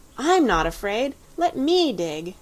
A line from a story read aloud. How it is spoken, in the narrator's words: Anthea cried out